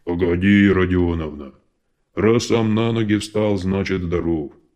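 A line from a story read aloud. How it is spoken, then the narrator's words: Deep bass, burly man. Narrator (Russian): Пробасил здоровенный бородатый мужик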